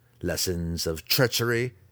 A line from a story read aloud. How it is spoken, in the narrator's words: Zack spat, too angry to care about the consequences